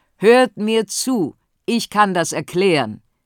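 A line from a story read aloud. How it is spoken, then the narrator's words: Calling out. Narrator (German): Und der Köchin, die jetzt aus der Menge tritt und ruft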